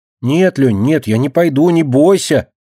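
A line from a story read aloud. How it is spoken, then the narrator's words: Loud reply. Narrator (Russian): громко ответила она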